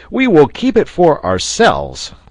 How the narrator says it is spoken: cried Pencroft

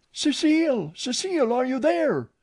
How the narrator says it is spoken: a breathless voice cried

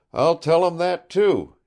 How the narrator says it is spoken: he said, chuckling

